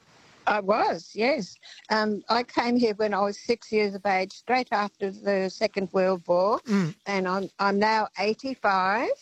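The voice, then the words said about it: Australian accent. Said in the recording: “I sound like an Aussie.”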